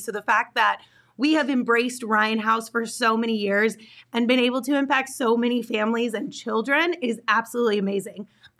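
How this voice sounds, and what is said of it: Hoarse, strained, fading voice. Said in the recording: “I'm losing my voice because it's been a lot.”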